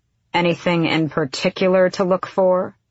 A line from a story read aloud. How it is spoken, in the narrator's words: Manon said flatly, already bored